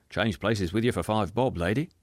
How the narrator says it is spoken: said someone else

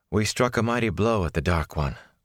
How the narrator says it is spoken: Moraine replied, with a sigh

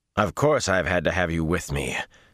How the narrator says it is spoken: Samael growled

